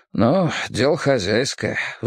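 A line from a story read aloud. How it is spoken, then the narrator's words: Sighing man. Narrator (Russian): вздохнул мужчина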